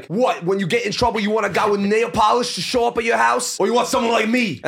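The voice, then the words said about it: Shifting British and Australian accent. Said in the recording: “The accent changes every 2 seconds. ... British, half Bugatti. ... Australian.”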